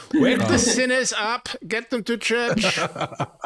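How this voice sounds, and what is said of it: Put-on German accent. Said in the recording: “I do a German accent ... I feel like I do it quite a bit”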